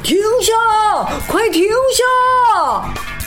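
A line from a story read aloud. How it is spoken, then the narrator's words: Shouting over loud noise. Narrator (Chinese): 比赛的声音太大了，所有的爸爸妈妈都沿着河岸边跑边喊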